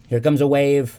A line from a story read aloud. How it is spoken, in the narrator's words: Sybil said nervously